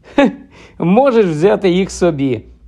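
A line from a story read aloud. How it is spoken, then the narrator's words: Laughing. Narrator (Ukrainian): розсміявся Гаррі, побачивши Ронів подив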